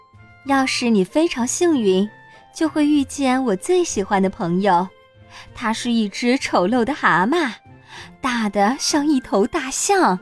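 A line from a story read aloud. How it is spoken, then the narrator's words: Soft. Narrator (Chinese): 弗里达轻声说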